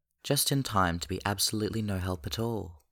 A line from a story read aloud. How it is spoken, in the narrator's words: Minho says